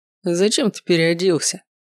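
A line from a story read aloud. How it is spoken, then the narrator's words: Mocking question. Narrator (Russian): насмешливо спросил Ривиан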